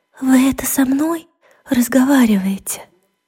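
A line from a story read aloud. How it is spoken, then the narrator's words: Timid question. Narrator (Russian): она робко спросила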